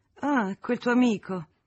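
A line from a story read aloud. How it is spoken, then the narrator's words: Contemptuous little laugh. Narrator (Italian): esclamò la signora Moreau con una risatina di disprezzo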